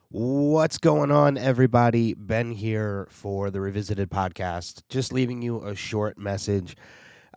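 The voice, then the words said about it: Sick voice, short of breath. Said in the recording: “if you can't tell by my voice ... COVID finally caught up to me ... currently sick ... hit me like a crazy severe flu ... can't record for long periods of time without losing my breath”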